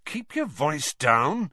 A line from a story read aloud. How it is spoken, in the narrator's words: said Harry crossly